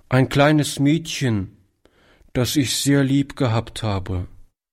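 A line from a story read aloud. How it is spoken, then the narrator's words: Boy, deep sigh. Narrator (German): antwortete der Junge mit einem tiefen Seufzer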